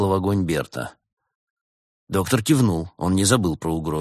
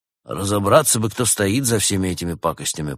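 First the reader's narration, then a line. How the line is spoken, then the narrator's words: Grumbled. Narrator (Russian): пробурчал он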